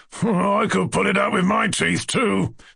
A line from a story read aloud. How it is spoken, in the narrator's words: the fisted gentleman groaned in the rear, in genuine despair